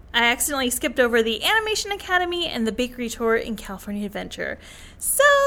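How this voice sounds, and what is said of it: Usual voice. Nothing is said of it.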